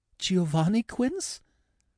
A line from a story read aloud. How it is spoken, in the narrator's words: Her voice trembled